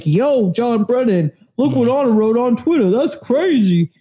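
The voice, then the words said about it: Impression of SBK's way of talking. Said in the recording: “that's my SBK impression ... that's how he talks”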